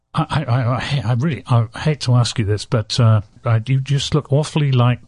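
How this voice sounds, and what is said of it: Poor impression in English accent. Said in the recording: “I'm doing this in a totally English accent ... This is a very terrible impression you're doing in this Sarasota busboy”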